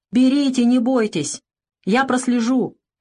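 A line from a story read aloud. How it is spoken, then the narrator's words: Reassuring shout. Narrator (Russian): крикнул солдат, видя, что они не решаются взять чай из-за запретки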